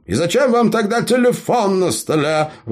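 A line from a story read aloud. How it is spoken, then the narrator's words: Indignant. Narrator (Russian): возмущенно ткнул он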